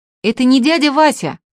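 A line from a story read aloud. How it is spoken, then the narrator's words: Shouting from gallery. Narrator (Russian): кричал Артемка на галерке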